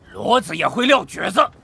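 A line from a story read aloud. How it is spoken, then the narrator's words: Shouted. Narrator (Chinese): 三树吼道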